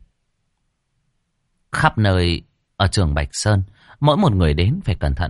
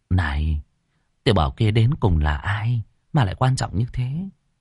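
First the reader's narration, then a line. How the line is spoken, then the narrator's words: Quiet question. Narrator (Vietnamese): Trưởng lão nhỏ giọng hỏi Ngô Thắng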